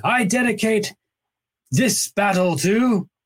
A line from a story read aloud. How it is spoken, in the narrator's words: shouted